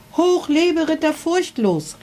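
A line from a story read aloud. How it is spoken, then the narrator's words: Crowd calling out. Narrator (German): rief das Volk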